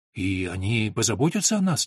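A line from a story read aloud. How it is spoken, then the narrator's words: Uncertain question. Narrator (Russian): неуверенно спросила Алина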